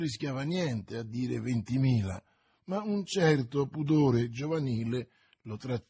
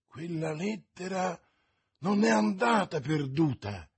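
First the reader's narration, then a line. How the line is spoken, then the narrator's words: Exclaimed. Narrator (Italian): esclamò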